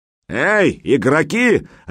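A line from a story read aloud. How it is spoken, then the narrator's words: Barked. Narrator (Russian): рявкнул он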